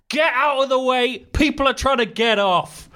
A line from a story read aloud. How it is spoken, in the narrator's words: shouted across the whole carriage